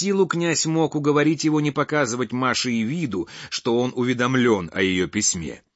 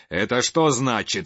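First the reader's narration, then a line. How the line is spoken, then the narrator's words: Menacing. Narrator (Russian): сказал грозно Кирилл Петрович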